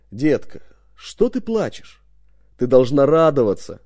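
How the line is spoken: Rolling booming voice. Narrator (Russian): своим раскатистым голосом спросил

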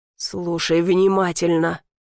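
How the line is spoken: Growl. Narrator (Russian): прорычал

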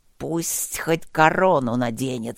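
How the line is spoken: Resigned hiss. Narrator (Russian): обреченно прошипела Осси

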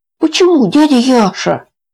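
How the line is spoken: Pleading. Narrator (Russian): взмолился Митя

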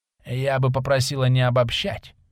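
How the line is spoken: Familiar hoarse voice. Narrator (Russian): Послышался знакомый хриплый голос

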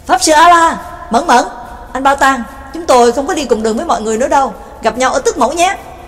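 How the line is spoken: Shouting forward. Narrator (Vietnamese): Nhạc Dương hướng về phía trước hét lên

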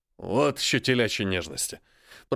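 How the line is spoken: Grumbling. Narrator (Russian): проворчал он

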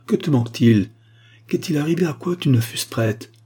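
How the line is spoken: Mother exclaiming. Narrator (French): s'écria sa mère

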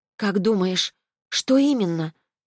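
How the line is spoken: Soft question. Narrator (Russian): мягко спросила Дар

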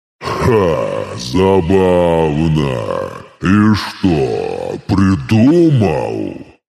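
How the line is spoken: Smirking deep bass. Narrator (Russian): С усмешкой пробасил

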